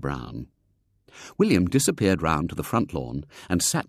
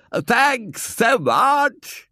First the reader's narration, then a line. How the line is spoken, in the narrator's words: in a hoarse shout